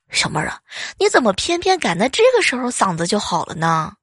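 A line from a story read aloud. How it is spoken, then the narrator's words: Sighing, disappointed. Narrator (Chinese): 领导一阵的叹息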